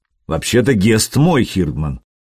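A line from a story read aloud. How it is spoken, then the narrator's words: Grumbled in foreign tongue. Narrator (Russian): тоже по-нурмански проворчал Стимит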